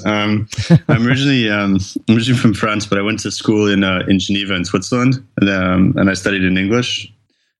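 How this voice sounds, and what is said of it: Accent not sounding like a Londoner. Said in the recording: “I'm sensing your accent the couple times that we've spoken is, I'm not sure it sounds like a Londoner”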